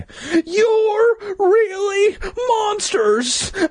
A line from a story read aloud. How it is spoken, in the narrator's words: I screamed